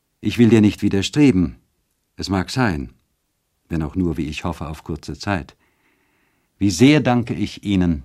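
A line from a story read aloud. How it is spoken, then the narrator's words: Plain. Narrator (German): sagte Ottilie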